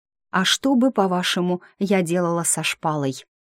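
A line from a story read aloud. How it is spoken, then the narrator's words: Awkward cough, muttering. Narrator (Russian): неловко кашлянул, и, клянусь, я слышала бормотание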